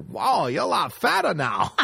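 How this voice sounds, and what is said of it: Put-on foreign accent. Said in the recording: “I'm going to do an accent.”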